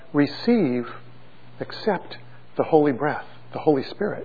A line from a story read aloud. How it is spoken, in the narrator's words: breathed on them and said